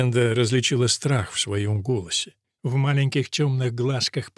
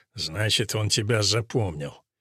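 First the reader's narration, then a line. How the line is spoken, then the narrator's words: Father grumbling. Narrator (Russian): Отец проворчал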